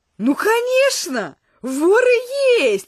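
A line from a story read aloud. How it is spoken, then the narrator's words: Joyful reply. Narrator (Russian): радостно ответил мой новый знакомый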